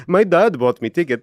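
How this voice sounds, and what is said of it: Deliberately bad put-on accent. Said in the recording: “Terrible accent.”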